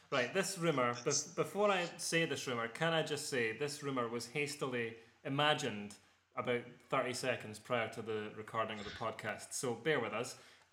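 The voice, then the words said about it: Rich Scottish accent. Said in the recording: “In your rich Scottish brogue.”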